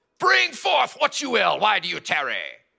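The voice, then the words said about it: Put-on British accent. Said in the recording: “I'm sure he talked with a British accent too”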